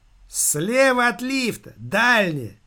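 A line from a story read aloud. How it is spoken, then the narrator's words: Shouted reply. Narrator (Russian): выкрикнула в ответ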